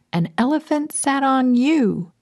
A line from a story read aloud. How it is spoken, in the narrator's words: shouting